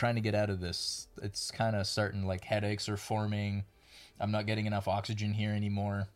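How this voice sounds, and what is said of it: Usual voice. Nothing is said of it.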